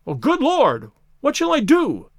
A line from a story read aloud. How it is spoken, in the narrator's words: cried the stranger, in an ecstasy of despair